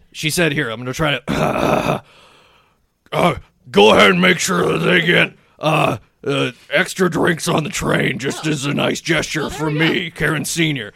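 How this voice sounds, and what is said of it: Imitates another person's voice. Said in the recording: “my impression of Karen Senior”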